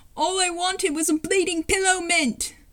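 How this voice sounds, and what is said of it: Put-on British accent. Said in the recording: “in a British accent,”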